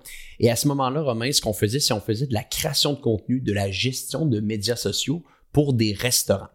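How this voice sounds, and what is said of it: Québécois French accent. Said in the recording (French): “vous, allez sûrement l'entendre aujourd'hui pour les gens qui sont en France. J'ai un accent québécois.”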